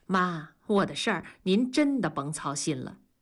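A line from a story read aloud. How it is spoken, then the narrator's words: Calm, faint smile. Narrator (Chinese): 燕妮淡然一笑，说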